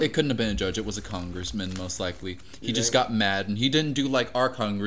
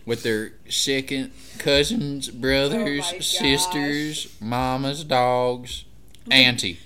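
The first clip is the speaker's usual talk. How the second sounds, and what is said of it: Put-on redneck Southern accent. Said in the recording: “Great accent, by the way. ... That was so good. ... Some kind of redneck.”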